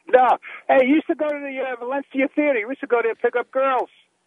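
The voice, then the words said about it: New York accent. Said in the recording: “New Yorker ... with that accent”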